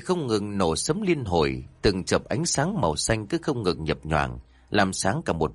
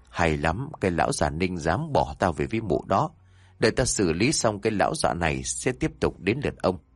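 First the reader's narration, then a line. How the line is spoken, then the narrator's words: Sly, scheming. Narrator (Vietnamese): Khẽ nở một nụ cười gian xảo, mụ Hạnh nói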